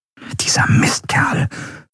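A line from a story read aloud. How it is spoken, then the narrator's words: Whispered. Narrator (German): flüsterte Enriel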